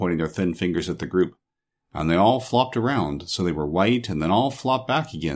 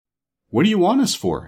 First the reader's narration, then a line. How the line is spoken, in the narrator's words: asked the shaggy man uneasily